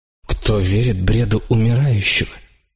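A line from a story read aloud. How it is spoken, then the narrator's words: Plain. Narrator (Russian): сказал я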